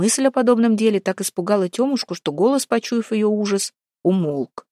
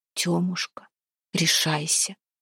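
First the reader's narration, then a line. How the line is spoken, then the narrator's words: Whispering. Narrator (Russian): шептал он на третью ночь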